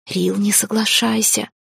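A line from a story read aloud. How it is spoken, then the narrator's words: Urgent pleading whisper. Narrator (Russian): Шепотом попыталась я вас звать к разуму Лирелла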